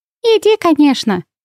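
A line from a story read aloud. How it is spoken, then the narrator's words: Cheerful snort. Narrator (Russian): весело хрюкнула Винни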